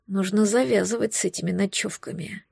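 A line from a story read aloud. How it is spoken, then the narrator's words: Quiet grumble. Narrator (Russian): проворчал он тихо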